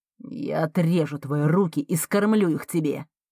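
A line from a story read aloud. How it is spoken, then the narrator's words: Through gritted teeth. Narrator (Russian): Цедит сквозь зубы Марка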